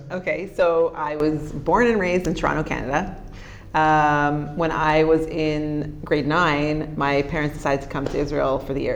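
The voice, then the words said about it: Canadian English accent. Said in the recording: “I hear a distinctly Canadian accent.”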